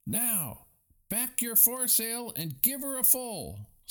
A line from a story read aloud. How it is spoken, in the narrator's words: screamed the owner of the Wasp